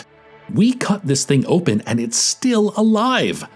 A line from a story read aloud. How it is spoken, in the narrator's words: Lim shrieked